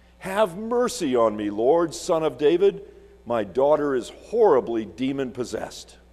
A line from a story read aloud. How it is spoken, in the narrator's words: A Canaanite woman from that area came and cried out